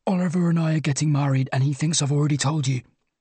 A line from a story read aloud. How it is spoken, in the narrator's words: desperately into her ear